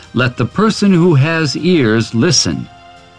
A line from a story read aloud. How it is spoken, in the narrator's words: he called out